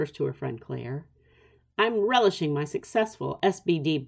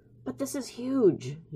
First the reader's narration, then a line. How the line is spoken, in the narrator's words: he whispers back